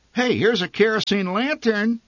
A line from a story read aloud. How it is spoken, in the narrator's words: my mother said excitedly